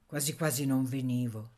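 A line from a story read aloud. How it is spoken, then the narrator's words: Plain, young man. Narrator (Italian): disse il giovine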